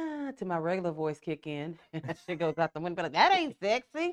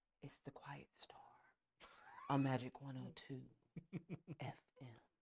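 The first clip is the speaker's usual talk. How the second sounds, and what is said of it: Soft, smooth nighttime radio DJ voice. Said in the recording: “I'm really trying to keep all that hood down a little bit because, you know, we get kind of loud. So I'm trying to keep it like a nighttime radio DJ voice.”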